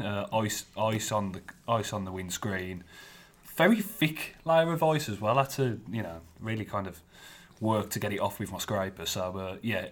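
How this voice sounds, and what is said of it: Thick Black Country accent. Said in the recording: “as thick as your accent ... thick as my black country accent”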